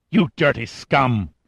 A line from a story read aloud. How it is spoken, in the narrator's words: she hissed